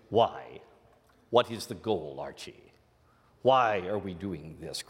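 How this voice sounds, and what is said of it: Imitation of a fictional detective's voice. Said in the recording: “your Nero Wolfe imitation.”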